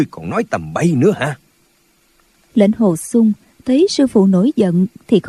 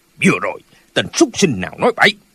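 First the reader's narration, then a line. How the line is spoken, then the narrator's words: Angry old man's shout. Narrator (Vietnamese): Lão quát lên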